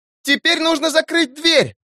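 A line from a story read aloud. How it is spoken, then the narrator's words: Urgent shout. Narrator (Russian): закричала Амелия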